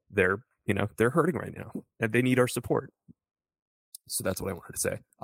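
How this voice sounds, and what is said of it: Choked-up, emotional voice. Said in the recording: “I'm a little choked up”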